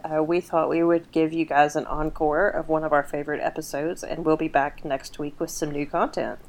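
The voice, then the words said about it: Strained, partly lost voice. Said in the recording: “my voice is a little bit out”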